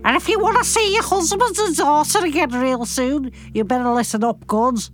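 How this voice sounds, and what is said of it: Put-on Scouse accent, villain voice. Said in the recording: “Why don't you choose another accent to do for him? ... Like a Scouse or something.”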